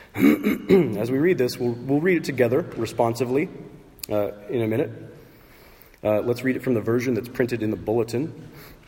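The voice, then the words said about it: Voice sounds messed up. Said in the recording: “my voice is kind of messed up today”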